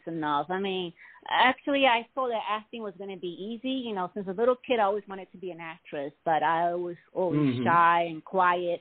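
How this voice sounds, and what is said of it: Noticeable accent, slow careful speech. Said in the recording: “I have an accent ... people tend to have a hard time understanding what I'm saying. I have to speak very clear and slow.”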